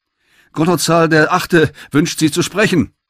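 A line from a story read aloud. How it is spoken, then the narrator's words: Called out. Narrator (German): rief der Cheffunker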